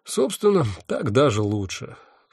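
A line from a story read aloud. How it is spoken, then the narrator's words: Sighing. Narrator (Russian): вздохнул я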